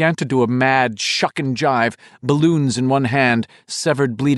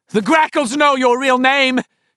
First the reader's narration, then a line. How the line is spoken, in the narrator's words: she screamed at it suddenly